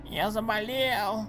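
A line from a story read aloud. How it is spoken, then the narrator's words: Hoarse child's voice. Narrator (Russian): прохрипел малыш Коб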